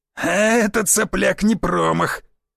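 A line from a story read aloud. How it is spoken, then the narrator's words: Hoarse shout. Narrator (Russian): крикнул сиплый голос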